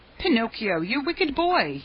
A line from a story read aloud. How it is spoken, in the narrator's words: cried out